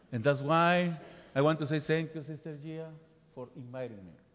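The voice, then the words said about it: Non-native English accent. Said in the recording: “my English was with a lot of accent, more accent than today”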